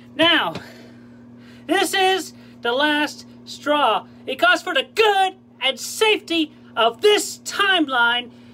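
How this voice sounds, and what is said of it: Yelling, raving voice. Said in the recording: “he's yelling at”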